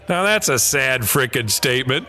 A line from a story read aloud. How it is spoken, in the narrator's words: I just started laughing, and I said